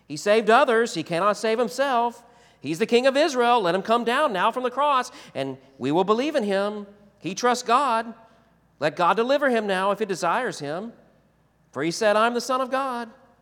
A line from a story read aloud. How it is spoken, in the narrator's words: the chief priests with the scribes and elders mocked him, saying